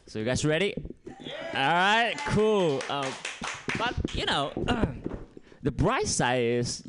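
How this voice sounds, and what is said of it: Strong non-native English accent. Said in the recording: “English is not my first language ... my fucked up English with my fucked up accent”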